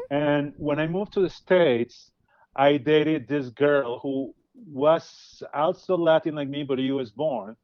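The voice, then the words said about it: Latin American accent. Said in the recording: “I have an accent. I'm not from the US. I'm from Latin America.”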